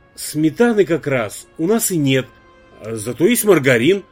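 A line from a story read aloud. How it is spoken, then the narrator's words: Confused, flustered. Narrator (Russian): растерянно заметила Елизавета Андреевна и, не успев договорить, запнулась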